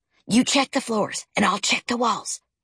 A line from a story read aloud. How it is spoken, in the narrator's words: he whispered